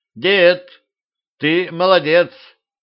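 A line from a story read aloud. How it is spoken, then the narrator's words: Shout. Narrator (Russian): крикнула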